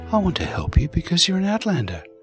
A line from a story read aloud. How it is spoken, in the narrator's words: Sienna said softly